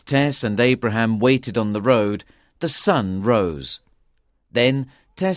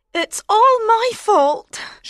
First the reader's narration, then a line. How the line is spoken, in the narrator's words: she cried